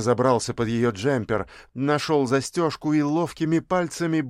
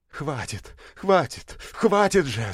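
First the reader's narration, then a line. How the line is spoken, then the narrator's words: Furious breathy. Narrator (Russian): с яростью выдохнула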